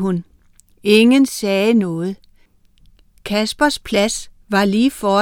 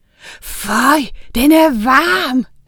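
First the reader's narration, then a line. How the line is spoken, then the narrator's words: Scream. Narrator (Danish): skreg han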